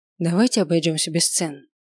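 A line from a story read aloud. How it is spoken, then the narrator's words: Calm request. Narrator (Russian): попросил спокойно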